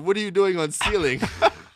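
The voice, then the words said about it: Thick put-on Spanish accent. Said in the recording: “The thickest Spanish accent I've ever heard in my life.”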